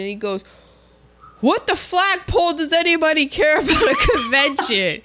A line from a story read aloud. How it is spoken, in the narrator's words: I laughed out loud